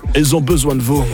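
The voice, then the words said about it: Imitates another person's voice with accent. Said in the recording (French): “M'obligez pas à le dire comme Nikos... T'as rajouté un accent.”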